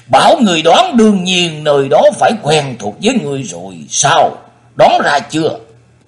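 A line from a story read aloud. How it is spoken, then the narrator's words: Laughing loudly. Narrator (Vietnamese): Thần Nhất Túy cười lớn nói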